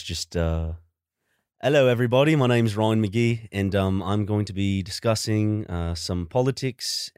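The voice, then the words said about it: Attempted British accent sounding Australian. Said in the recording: “Give me your best British... that sounds Australian.”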